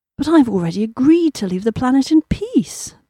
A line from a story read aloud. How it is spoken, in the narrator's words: purred